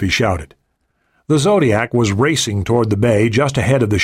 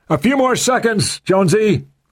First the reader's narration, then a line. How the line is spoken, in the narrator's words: shouted